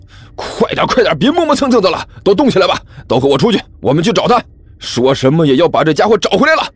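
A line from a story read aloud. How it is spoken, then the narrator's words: Roaring. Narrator (Chinese): 甘球大吼着说道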